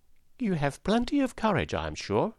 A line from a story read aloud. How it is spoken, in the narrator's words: answered Oz